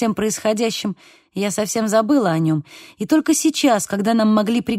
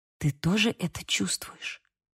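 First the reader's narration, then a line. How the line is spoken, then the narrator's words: Whisper. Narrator (Russian): прошептала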